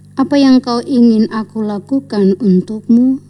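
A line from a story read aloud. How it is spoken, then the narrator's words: Plain. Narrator (Indonesian): tanya Yesus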